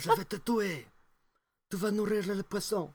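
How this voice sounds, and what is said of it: Put-on Sicilian mafioso accent. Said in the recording (French): “Ça, c'est l'accent sicilien.”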